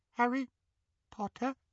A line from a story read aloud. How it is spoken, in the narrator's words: he squeaked in the tiniest quiver of a voice